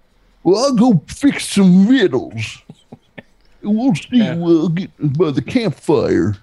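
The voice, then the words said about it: Old cowboy voice impression. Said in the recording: “Isn't that like an old cowboy? ... Walter Brennan ... Yeah, that's close ... doing an impression of him”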